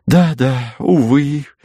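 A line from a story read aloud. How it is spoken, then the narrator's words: Sigh. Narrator (Russian): вздохнула сестра Гиацинтова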